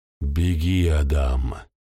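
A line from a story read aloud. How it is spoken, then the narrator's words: Deep, hoarse, masculine. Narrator (Russian): Голос Хавы звучал по-мужски глухо и хрипло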